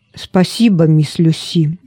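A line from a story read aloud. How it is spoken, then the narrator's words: Plain. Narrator (Russian): ответил Роберт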